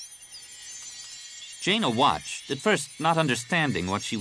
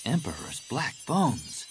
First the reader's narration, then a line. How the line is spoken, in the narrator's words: Jaina breathed